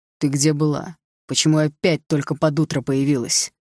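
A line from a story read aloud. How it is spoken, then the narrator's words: Angry question. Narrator (Russian): зло спросил Руслан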